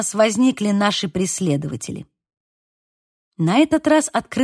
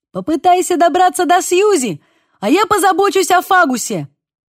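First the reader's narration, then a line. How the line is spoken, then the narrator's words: Shout. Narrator (Russian): крикнул мне Бейл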